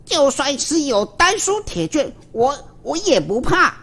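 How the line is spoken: Angry reply. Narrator (Chinese): 殷天锡怒地回道

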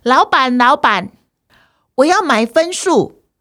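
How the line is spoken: Loud calling. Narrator (Chinese): 他又大声的叫着

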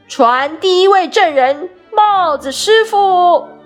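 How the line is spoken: Shouted. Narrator (Chinese): 白兔喊道

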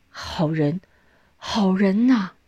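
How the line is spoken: Repeated admiring praise. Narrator (Chinese): 李先生连连赞叹

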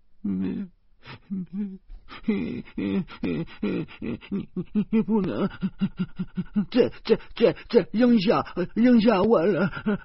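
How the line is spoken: Tearful, stammering. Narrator (Chinese): 林娜和小魔女哭了好久，小魔女才清清楚楚的说出一句整话

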